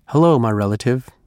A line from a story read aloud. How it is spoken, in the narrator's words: said